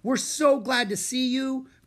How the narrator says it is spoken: cried Annie

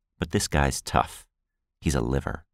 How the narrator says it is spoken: he said calmly

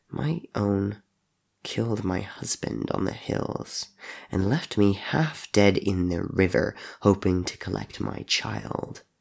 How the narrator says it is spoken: Crow said coldly

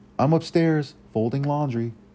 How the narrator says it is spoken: She yelled

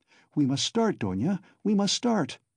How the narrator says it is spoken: her mother cried in a flutter

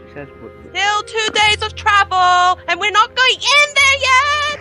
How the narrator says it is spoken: I yell far, far away

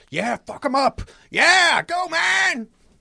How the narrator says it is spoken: yell

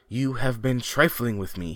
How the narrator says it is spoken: he cried

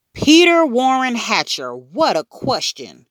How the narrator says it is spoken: Grandma shouted

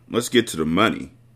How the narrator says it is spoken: Money said calmly

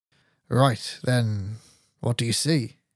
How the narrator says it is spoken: He asked, keeping the tone of his voice flat and disinterested

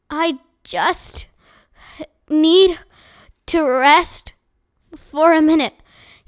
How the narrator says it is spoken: gasped

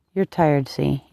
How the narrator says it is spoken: he said gently

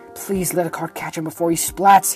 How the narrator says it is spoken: he muttered

